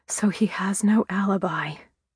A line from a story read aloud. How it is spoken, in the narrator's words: I whispered